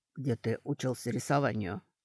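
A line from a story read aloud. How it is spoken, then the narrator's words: Elf whispering. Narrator (Russian): прошептал эльф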